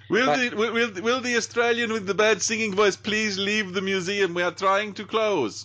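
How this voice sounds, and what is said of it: Exaggerated put-on Swedish accent. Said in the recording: “that's the world's most Swedish accent, isn't it?”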